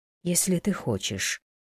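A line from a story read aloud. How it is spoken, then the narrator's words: Soft. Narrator (Russian): сказала Лейла мягко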